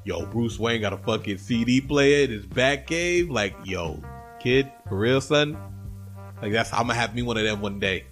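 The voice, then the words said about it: Put-on hip-hop slang voice. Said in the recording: “That was my impression of a white kid who thinks who's listened to Wu-Tang too much, but he lives in like Montana. That's how he talks”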